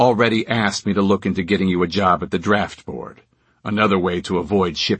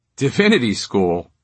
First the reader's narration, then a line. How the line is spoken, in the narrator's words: Charlie laughed